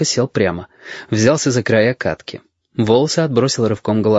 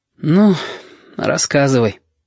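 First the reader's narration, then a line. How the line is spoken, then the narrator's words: Sigh. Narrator (Russian): вздохнул ежики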